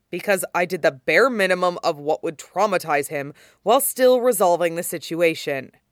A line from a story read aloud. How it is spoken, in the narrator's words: he said sharply, half lying